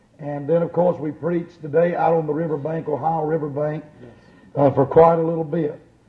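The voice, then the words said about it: Hoarse voice. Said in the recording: “I'm a little bit hoarse tonight because this is the 11th night of the meeting”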